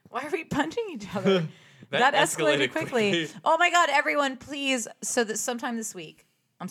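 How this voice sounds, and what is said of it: Excited yelling. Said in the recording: “sorry I'm yelling. ... I'm very excited.”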